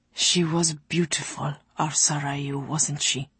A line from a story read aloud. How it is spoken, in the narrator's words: Ulasim inquired, his mouth barely moving as he whispered